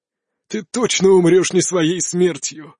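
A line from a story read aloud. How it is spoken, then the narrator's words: Laughing old man. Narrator (Russian): расхохотался старик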